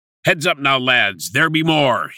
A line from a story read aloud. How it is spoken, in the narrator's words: he barked